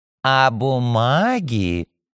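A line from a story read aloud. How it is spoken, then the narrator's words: Princess creaking spitefully. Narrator (Russian): вредным голосом проскрипела княгиня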